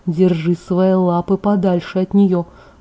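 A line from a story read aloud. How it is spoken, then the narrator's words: Gloomy. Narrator (Russian): мрачно ответил Эдвард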